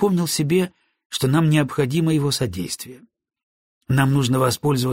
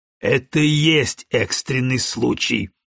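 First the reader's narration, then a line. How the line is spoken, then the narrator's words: Impatient bark. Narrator (Russian): гаркнул Броуди, теряя терпение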